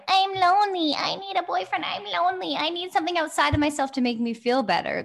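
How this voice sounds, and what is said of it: Put-on inner saboteur character voice. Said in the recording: “That's my saboteur voice ... I always do that voice. That's how mine sounds.”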